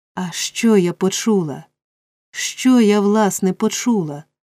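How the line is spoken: Exclamation. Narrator (Ukrainian): вигукнула Роза

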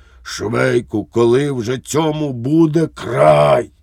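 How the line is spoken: Hoarse exclamation. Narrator (Ukrainian): Поручник Лукаш охриплим голосом вигукнув

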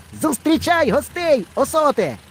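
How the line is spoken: Boy shouting from hill. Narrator (Ukrainian): крикнув хлопчик із гори

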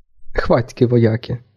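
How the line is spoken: Laughing. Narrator (Ukrainian): засміявся Равік

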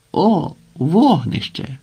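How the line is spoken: Exclamation. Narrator (Ukrainian): вигукнув один

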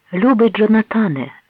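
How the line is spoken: Ringing exclamation. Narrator (Ukrainian): вигукнула дивовижно дзвінким голосом

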